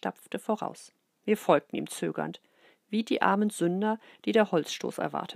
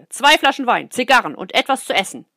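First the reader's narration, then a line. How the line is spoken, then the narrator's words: Calling out. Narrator (German): rief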